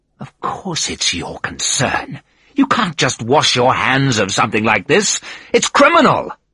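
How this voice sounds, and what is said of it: Voice rising, getting louder. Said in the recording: “My voice was getting louder. People were looking at us.”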